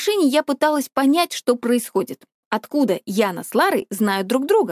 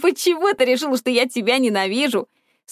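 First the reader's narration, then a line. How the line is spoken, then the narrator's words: Laughing question. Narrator (Russian): Сквозь смех спросила она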